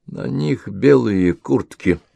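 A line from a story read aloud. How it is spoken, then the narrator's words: Quiet remark. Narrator (Russian): тихо заметил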